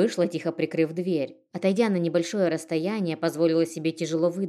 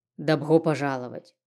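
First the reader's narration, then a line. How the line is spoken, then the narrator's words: Mayor, burred speech. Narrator (Russian): картавя произнес мэр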